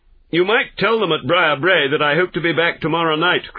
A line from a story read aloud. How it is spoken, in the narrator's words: cried Phelps